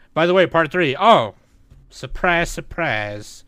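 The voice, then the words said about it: Sarcastic line in put-on accent. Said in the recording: “I was being sarcastic. ... That's why I said it in an accent.”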